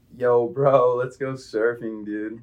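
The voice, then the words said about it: Put-on Californian surfer accent. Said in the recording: “a really zesty like Californian guy ... Wait, that's actually pretty good.”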